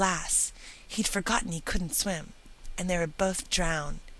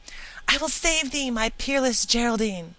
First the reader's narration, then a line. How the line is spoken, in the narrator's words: Bertram exclaiming